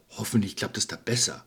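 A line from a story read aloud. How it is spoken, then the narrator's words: Wolf muttering. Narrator (German): murmelte der Wolf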